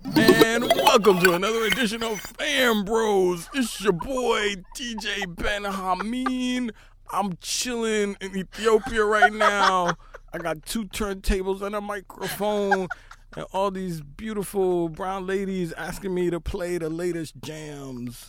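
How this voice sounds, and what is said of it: Imitates another person's voice. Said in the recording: “That was actually an amazing DJ Benhameen impersonation.”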